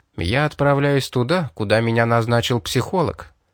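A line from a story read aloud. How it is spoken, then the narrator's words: Even voice. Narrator (Russian): сказал ровным голосом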